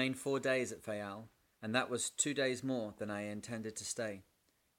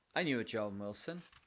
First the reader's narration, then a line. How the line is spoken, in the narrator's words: I said